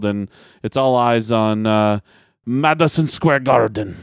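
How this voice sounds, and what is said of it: Poor imitation of another person's voice. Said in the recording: “my awful Iron Sheik impersonation”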